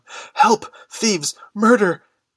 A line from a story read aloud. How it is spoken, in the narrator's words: cried